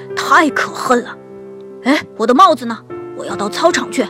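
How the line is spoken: Roaring father bear. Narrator (Chinese): 熊爸爸咆哮起来

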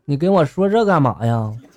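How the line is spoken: Plain. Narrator (Chinese): 狄仁杰就说了

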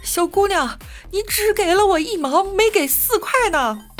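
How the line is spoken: Old man calling out. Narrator (Chinese): 大爷在后面追着喊

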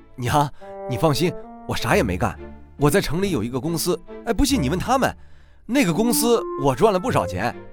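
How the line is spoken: Hurried. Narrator (Chinese): 急忙跟娘说

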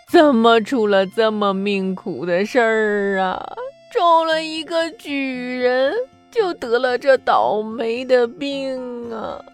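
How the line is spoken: Old woman crying. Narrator (Chinese): 老太太哭着说

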